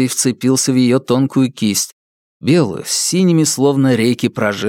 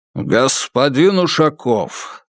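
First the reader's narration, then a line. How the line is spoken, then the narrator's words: Irritated deep old man's voice. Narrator (Russian): раздраженно пробасил дед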